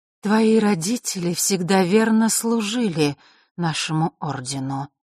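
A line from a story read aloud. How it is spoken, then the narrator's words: Unusually muffled voice. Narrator (Russian): начала Елена каким-то непривычно глухим голосом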